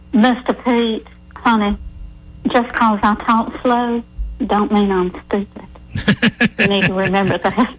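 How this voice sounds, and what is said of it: Exaggerated slow Southern accent. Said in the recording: “let me put on my very best dumb Southern accent here so that everybody understands”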